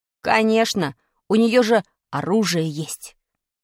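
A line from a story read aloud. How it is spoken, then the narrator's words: Whispered. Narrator (Russian): прошептал Димка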